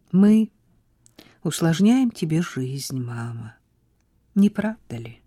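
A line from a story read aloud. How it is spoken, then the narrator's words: Sad question. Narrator (Russian): Печально спросила Изабель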